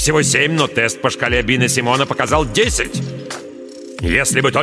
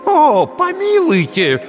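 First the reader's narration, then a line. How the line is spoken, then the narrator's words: Old man exclaiming. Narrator (Russian): воскликнул старик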